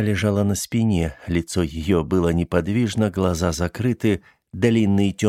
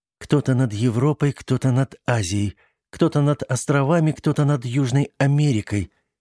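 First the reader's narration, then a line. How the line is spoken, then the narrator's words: Hurried silent whisper. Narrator (Russian): торопливо одними губами прошептала Сиси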